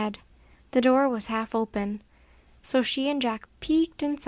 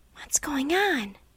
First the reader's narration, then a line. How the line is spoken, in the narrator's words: Annie whispered to Jack